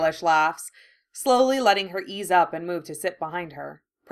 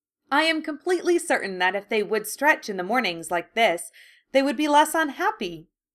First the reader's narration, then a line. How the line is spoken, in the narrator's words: Llewellyn says